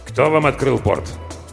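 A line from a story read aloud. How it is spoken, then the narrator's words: Irritated question. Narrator (Russian): спросил он, раздраженно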